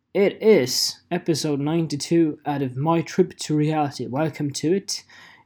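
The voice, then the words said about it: Put-on British accent. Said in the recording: “I am talking in a British accent.”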